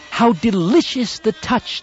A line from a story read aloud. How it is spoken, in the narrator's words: exclaimed, overpowered with pleasure